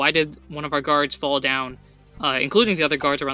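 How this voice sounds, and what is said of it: Usual voice. Nothing is said of it.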